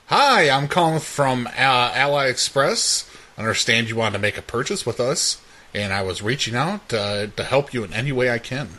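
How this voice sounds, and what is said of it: Customer service voice. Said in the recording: “This is my customer service voice.”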